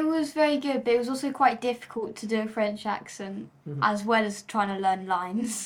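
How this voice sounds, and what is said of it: Usual voice. Nothing is said of it.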